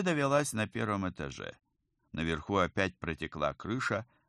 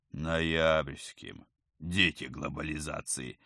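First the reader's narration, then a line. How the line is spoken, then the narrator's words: Sarcastic snort. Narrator (Russian): саркастически фыркнул оперативник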